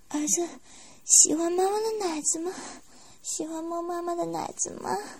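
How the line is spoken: Coy, breathy question. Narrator (Chinese): 娇声问道

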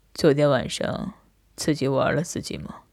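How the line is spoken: Suddenly cold voice. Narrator (Chinese): 他通红着脸，他的声音顿时冷了下来

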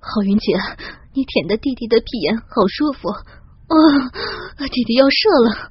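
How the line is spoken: Heavy panting. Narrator (Chinese): 小亮更受不了了，他粗重的喘息着

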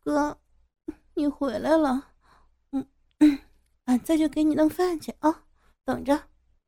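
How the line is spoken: Hoarse. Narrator (Chinese): 白兰花……沙哑的说

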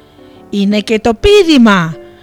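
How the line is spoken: Tiger shouting. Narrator (Greek): φώναξε η τίγρη

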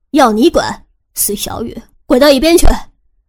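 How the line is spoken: Laughing loud yell. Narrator (Chinese): 蓝雨欣大笑，对汉叔大声吼着

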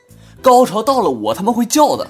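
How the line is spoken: Impatient, loud. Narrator (Chinese): 女售票员呢实在是不耐烦，高声的回答

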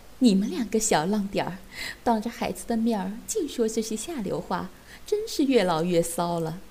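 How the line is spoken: Embarrassed laughing scold. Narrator (Chinese): 大姨妈被说得满脸绯红，笑骂道

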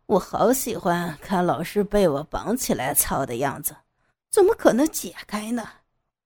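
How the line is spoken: Cold sneer. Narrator (Chinese): 杨野冷笑道

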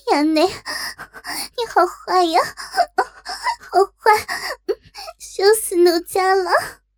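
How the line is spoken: Coy sobbing whine. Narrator (Chinese): 哭嗔道

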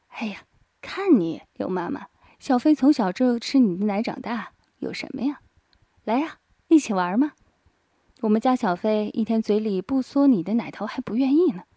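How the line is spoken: Laughing. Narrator (Chinese): 张静笑道

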